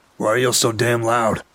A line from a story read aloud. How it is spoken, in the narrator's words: he kicked my coffee table and shouted